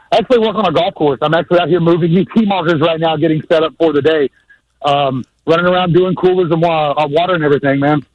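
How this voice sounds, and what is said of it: Out of breath, breathless speech. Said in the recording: “Why are you so out of breath?”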